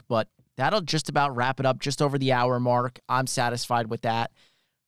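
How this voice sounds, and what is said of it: Strained, fading voice. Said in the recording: “I'm losing my voice a little bit here.”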